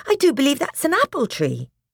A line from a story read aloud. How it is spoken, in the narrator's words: exclaimed